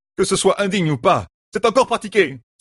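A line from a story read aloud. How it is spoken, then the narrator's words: Exclaimed. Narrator (French): s'écria Matt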